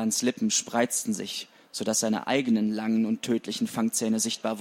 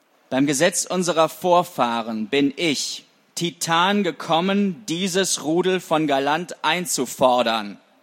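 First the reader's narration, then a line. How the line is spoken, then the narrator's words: Roar. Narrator (German): Er brüllte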